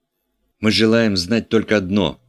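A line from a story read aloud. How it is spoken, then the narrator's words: Eager combative exclamation. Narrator (Russian): воскликнул охваченный боевым задором доктор Губка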